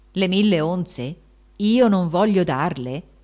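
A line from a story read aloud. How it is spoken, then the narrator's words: Exclamation. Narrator (Italian): esclamò allora Giacomo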